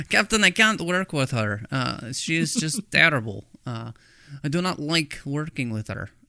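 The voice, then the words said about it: Deliberately bad Russian accent. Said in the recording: “That's my terrible Russian accent.”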